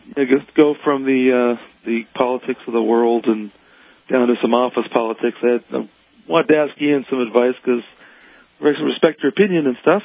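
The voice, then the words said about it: Hoarse voice from a cold. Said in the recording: “I apologize in advance for my voice. I'm getting over the cold and ... I keep losing my voice.”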